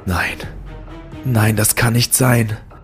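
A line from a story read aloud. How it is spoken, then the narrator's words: Barely audible whisper. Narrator (German): flüsterte ich kaum hörbar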